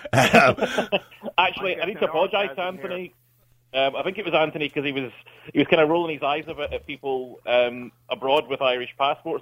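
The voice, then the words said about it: Scottish accent. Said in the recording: “A man from Scotland ... Oh, I love the Scottish accent.”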